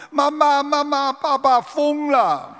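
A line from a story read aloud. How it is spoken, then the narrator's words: Crying child. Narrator (Chinese): 儿子哭着跟他妈妈说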